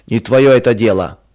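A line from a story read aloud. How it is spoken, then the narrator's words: Rude gruff reply. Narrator (Russian): грубо отвечал он жене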